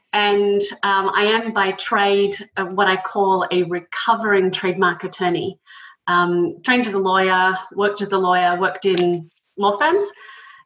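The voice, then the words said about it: Australian accent. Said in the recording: “as you can tell from the accent, I'm originally from Australia”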